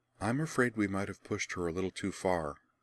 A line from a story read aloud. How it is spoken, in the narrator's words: Rian murmured to her friends across the aisle